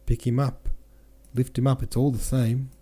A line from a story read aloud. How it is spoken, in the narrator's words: cried someone